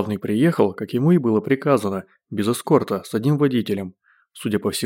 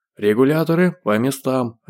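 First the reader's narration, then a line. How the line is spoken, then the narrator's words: Deafening bark. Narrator (Russian): рявкнул он так, что Женя зажала уши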